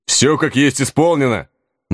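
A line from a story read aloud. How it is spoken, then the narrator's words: Booming bellow. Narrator (Russian): На всю улицу гаркнул он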